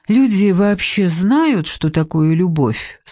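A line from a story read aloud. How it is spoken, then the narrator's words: Purring question. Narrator (Russian): спросила Соня мурлычащим голосом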